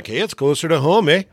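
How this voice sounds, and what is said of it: Put-on Canadian accent. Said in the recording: “Apparently, I speak a little Canadian, too.”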